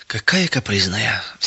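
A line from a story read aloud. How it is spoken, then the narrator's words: Sigh. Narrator (Russian): вздохнула фрау Бекер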